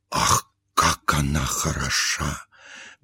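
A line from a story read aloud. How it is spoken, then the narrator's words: Whispering. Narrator (Russian): говорили шепотом кавалер кавалеру и дама даме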